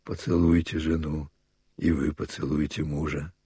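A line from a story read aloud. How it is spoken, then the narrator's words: Quiet, kindly smiling. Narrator (Russian): Он улыбнулся своим добрым ртом и тихо сказал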